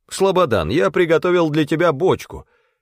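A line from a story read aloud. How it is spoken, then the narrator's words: Shouted. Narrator (Russian): крикнул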